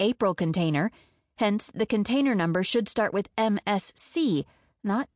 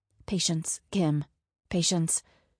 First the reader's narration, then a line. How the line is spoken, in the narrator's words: whispered the voice in my head